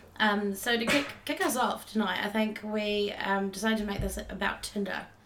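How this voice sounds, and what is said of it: Raspy, hoarse voice. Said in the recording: “my voice is a little bit raspy. I've got nodes on my vocal cords ... it'll keep going a bit raspy and coming back”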